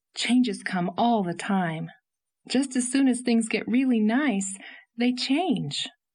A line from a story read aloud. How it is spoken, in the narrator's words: she said with a sigh